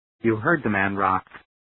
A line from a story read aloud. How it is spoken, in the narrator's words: Strawboss said quietly